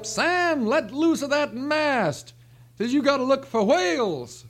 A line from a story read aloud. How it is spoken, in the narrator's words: The captain hollers up